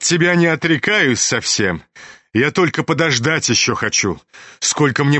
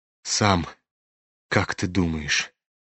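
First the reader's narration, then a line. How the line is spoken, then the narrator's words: Sad question. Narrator (Russian): переспросил князь, грустно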